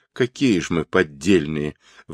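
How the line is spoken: Exclaiming through tears. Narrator (Russian): восклицали они сквозь слезы

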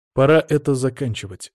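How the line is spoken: Snorting. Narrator (Russian): хмыкнул я

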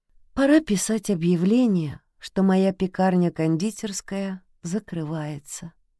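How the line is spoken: Sad. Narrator (Russian): грустно произнесла Лили

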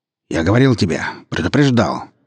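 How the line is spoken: Rough reply. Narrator (Russian): грубо отозвался Черкизов

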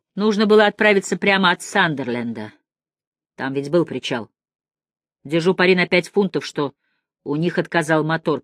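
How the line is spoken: Grumbling. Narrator (Russian): проворчал Браун

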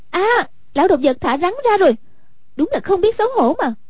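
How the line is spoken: Exclaiming. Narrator (Vietnamese): Hoàng Dung kêu lên

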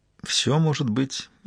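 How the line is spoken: Barely audible girl. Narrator (Russian): едва слышно проговорила девушка

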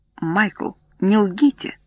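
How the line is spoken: Weary. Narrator (Russian): устало сказал Гарт

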